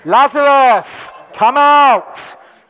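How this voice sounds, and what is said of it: Loud, shouted call. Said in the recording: “in a loud voice,”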